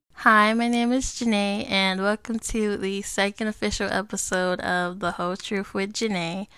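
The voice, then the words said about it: Voice a little off, sick. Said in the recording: “I fell sick with a sore throat as well as a cold... if my voice is a little off, that's why”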